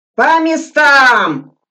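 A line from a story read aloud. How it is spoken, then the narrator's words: Drawn-out shout. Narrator (Russian): протяжно прокричал Суслин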